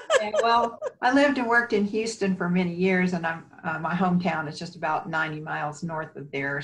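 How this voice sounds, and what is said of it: Mild Texas accent. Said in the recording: “I could sort of hear the Texas in your voice.”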